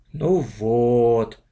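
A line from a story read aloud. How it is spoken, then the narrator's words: Disappointed drawl. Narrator (Russian): протянул разочарованно Саша Иванов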